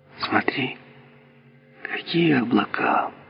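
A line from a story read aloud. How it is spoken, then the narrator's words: Quiet, soft. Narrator (Russian): Она тихо так сказала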